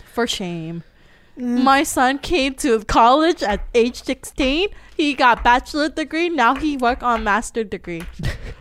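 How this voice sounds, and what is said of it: Put-on foreign accent. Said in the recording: “that accent”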